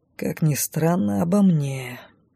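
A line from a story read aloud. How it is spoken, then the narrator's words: Thoughtful drawl. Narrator (Russian): задумчиво протянул он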